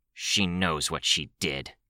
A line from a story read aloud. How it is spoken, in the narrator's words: Rachel growled